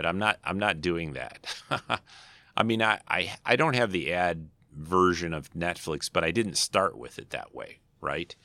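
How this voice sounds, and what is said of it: Slightly hoarse, scratchy voice. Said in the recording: “My voice is still a little hoarse. ... a little scratchy throat kind of thing”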